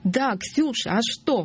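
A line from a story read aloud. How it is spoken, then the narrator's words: Shrieking girl. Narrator (Russian): взвизгнула девушка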